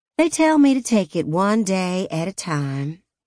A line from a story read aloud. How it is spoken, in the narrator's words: Gray sighed